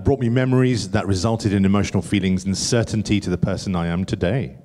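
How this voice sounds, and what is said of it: Smooth radio presenter voice. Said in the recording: “Hasn't ... got the best radio voice? He's got the best.”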